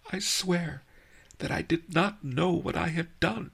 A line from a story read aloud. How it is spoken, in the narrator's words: she sobbed